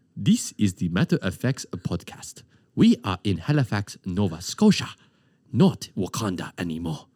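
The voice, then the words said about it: Put-on Wakandan accent. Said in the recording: “I can do like a Wakanda accent. You ever see Black Panther?”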